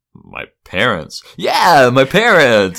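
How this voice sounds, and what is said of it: Cartoon character voice impression. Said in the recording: “That's a very good impression of Brink”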